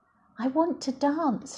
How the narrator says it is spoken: cried

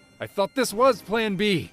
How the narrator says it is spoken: Link yelled back

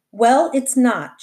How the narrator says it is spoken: she said

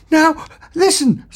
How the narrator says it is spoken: said Ford nervously

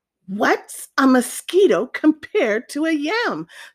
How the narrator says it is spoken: snapped the iguana grumpily

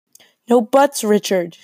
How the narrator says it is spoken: she snaps

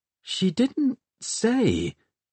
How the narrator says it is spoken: he murmured

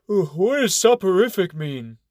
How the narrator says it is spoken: Brother Clark yawns and asks

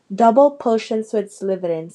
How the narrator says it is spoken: said Ron

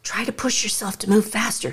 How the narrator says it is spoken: he murmurs in my ear

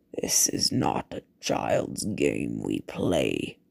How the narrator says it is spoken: the Baron rumbled

